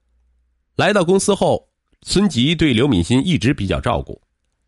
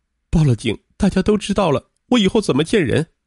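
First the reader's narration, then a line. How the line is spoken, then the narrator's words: Sobbing. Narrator (Chinese): 说着又大哭起来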